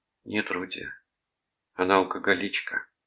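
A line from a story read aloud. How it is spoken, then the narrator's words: Gentle. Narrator (Russian): мягко сказала Гретхен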